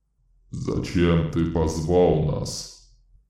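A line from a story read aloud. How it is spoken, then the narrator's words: Muffled rolling voice. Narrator (Russian): спросил птичий человек глухим, раскатистым голосом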